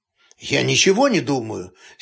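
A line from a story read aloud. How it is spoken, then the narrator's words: Angry reply. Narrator (Russian): сердито ответил Денис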